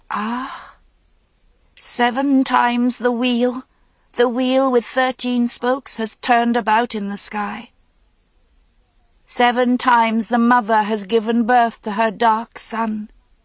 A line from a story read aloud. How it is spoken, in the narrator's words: gasping and choking as if her voice were long disabled from the silence, Raven cried out